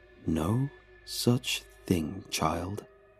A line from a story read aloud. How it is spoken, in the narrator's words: he whispered